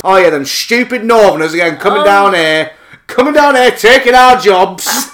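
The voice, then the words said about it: Put-on northern English accent. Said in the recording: “that was in a northern accent”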